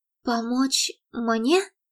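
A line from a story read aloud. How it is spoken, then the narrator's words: Frightened, smiling. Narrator (Russian): испуганно улыбнулась Мередит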